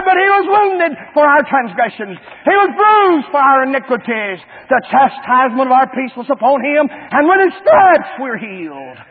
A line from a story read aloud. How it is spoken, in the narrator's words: Isaiah cried out